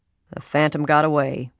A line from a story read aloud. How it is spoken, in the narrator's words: Ed Raleigh said gloomily